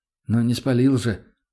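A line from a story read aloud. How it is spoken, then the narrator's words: Calm. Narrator (Russian): спокойно ответил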